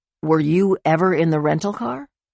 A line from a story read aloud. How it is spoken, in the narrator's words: Alex asked